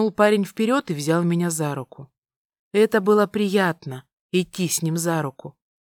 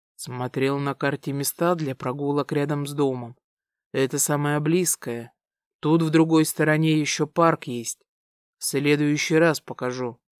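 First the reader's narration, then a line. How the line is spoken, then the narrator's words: Plain. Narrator (Russian): ответил Дамиан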